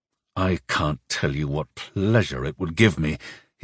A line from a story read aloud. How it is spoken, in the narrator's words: he said through gritted teeth